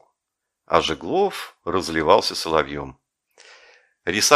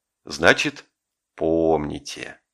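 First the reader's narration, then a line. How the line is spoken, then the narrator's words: Satisfied sigh. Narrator (Russian): удовлетворенно вздохнул Жеглов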